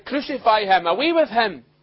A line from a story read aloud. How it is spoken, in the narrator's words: They cried